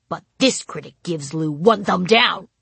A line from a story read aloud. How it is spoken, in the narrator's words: I grumbled to Carrie